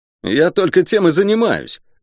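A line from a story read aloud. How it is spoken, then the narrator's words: Irritated snap. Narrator (Russian): раздраженно огрызнулся Шен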